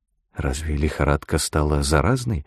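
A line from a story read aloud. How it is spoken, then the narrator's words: Whispered. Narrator (Russian): шепнула я ему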